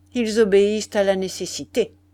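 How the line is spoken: Cold. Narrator (French): répondit froidement Gomez

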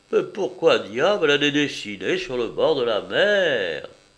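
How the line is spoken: Pained exclamation. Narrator (French): s'écria douloureusement

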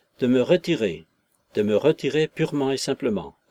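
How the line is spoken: Resolute. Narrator (French): conclut-il d'un ton résolu

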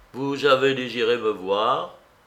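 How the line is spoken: Cold. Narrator (French): dit-il froidement

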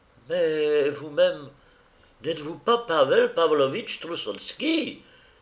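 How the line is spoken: Realizing exclamation. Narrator (French): s'écria Valchlaninov de l'air d'un homme qui devine

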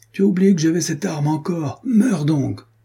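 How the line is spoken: Exclaimed. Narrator (French): s'écria-t-il

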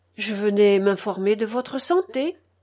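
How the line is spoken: Timid reply. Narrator (French): réplique timidement Vassili

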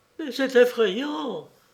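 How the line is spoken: Trembling female voice. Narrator (French): dit-elle d'une voix tremblante

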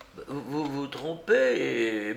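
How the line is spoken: Stammering. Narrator (French): bégaya l'homme

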